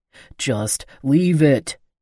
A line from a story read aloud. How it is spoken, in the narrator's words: Micah growled